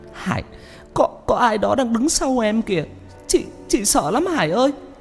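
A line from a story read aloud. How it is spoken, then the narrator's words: Tearful, frightened. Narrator (Vietnamese): Chị nói trong nước mắt, tay run run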